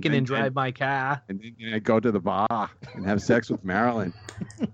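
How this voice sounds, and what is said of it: Put-on New England accent. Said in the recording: “that accent besides the Kennedys ... Let's just talk in the Kennedy's accent”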